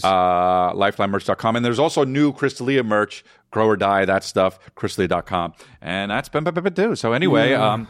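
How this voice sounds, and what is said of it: Very fast talking. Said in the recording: “You say it so fast. ... I'm a fast talker.”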